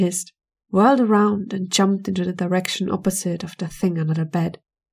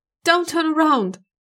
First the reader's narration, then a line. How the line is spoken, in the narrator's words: screamed inside her head